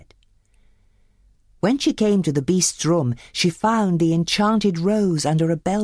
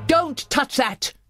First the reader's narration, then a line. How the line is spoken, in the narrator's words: he bellowed